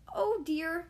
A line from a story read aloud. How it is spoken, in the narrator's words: cried Charlie